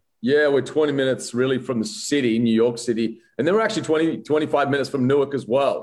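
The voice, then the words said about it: Australian accent. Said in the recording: “Kind of a Southern New Jersey accent. What is that? ... I am an Aussie.”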